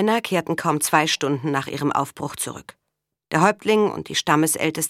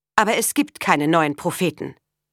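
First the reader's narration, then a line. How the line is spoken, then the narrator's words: Stern objection. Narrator (German): wandte Ida streng ein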